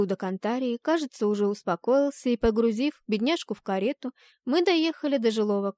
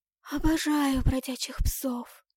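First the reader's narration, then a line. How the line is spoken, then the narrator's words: Hoarse, half-dead croak. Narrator (Russian): прохрипела полумертвая Антария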